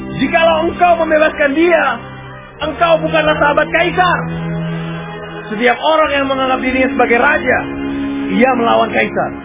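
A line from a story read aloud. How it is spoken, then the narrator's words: Crowd shouting. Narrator (Indonesian): orang-orang Yahudi berteriak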